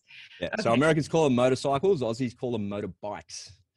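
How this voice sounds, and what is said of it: Australian accent. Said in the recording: “It's my Aussie accent. And a slight nuance in Australian versus American.”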